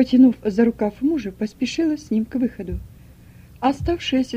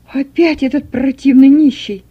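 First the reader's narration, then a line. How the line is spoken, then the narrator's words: Loud exclamation. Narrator (Russian): громко воскликнула Берта Петровна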